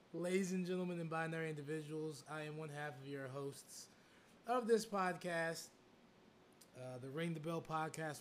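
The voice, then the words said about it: Hoarse, lost voice. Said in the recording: “I have definitely lost my voice.”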